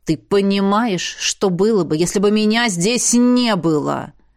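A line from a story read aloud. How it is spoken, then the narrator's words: Interrupting growl. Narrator (Russian): Вдруг, резко остановившись и перебивая, зарычал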